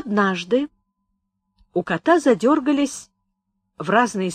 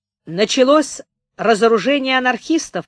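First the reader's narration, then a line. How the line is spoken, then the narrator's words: Shouting into phone. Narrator (Russian): прокричал он в трубку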